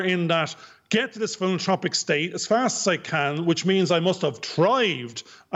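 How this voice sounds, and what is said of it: Irish accent. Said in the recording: “that's my Irish accent with a TH ... So it's the accent.”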